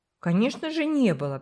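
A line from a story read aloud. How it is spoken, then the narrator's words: Contemptuous snort. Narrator (Russian): презрительно фыркнул Джерри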